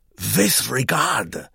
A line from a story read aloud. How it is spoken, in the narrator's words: pursued Herr Vogel in a whisper